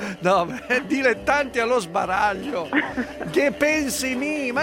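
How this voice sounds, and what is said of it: Usual voice. Nothing is said of it.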